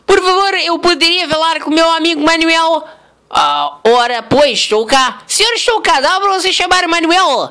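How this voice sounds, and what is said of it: Put-on Portuguese (Portugal) accent. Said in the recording (Portuguese): “pessoal dos nossos fãs de Portugal ... sotaque”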